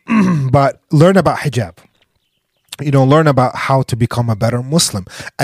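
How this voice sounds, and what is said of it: Weird-sounding sick voice. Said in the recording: “my voice is weird because I'm a little sick”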